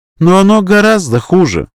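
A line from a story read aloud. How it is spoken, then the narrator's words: Sighing countess. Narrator (Russian): вздохнула графиня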